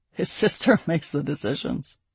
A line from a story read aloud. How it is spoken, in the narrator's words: Kyair said with a laugh